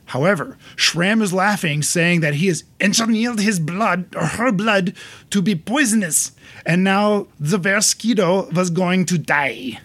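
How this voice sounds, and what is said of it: Put-on Austrian accent. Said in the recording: “Sounds like Schwarzenegger. ... That's more of an Austrian accent.”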